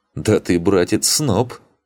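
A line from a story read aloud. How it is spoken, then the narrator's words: Scoffing. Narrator (Russian): хмыкнул Луфи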